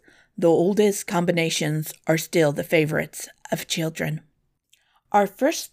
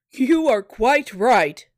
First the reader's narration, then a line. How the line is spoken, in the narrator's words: cried the king